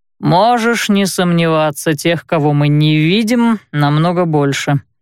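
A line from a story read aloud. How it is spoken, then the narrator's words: Grumbling. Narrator (Russian): проворчал Уолкс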